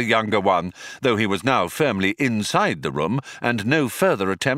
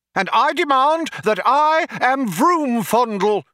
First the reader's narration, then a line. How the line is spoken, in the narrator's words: shouted the younger one